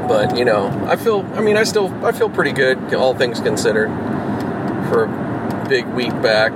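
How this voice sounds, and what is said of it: Tired, worn-out voice. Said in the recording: “I'm fucking done as you can probably hear in my voice.”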